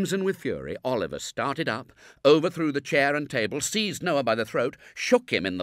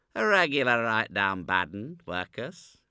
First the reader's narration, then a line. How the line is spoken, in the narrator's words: replied Noah, coolly